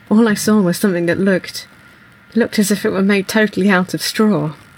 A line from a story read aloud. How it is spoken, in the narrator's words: As he comes round from being choked, he says